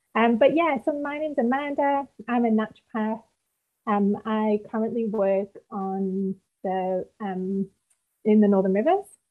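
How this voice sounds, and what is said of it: British (UK) accent. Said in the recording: “originally I'm from the UK, as you can tell by my rich accent ... It's a nice accent ... It's very easy to listen to.”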